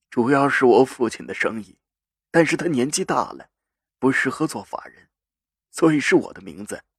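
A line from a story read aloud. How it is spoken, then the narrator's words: Calm, flat. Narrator (Chinese): 赵信如淡淡的……说道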